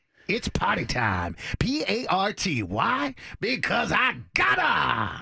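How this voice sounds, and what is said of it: Over-the-top wacky celebrity impression. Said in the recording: “Someone wacky. ... From, like, the 80s or something. ... this is ... bad impression. ... it is Jim Carrey. ... I was trying to go for the wacky. ... you nailed it with wacky. ... It was over the top wacky.”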